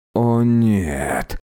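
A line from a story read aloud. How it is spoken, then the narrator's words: Groan. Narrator (Russian): простонал Диль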